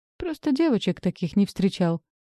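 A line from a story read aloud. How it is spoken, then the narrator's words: Chuckled. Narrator (Russian): хохотнул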